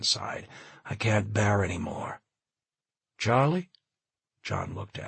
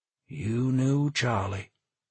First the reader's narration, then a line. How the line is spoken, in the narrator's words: Keller said with a sigh